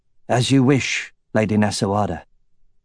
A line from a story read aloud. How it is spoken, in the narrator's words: Roran said in his rough voice